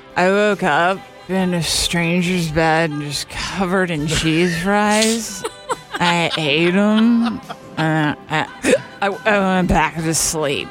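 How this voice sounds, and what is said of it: Drunk-sounding slurred speech. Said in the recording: “Is that like hungover? ... It's drunk.”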